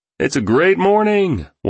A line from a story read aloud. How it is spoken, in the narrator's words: one shouted